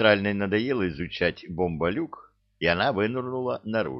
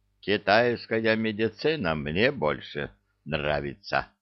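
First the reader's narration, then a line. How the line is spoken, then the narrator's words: Gloomy. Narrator (Russian): мрачно сказала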